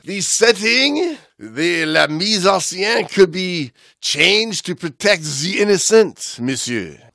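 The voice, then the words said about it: Overly exaggerated French accent. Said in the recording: “accent. An overly exaggerated accent”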